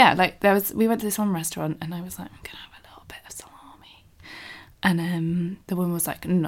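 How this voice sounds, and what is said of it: Usual voice. Nothing is said of it.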